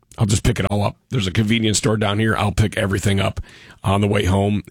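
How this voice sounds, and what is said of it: Voice sounds unwell. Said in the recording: “You sound terrible”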